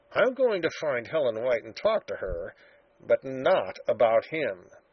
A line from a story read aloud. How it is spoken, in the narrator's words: he muttered